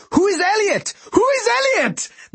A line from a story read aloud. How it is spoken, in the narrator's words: My dad walked in completely confused and started shouting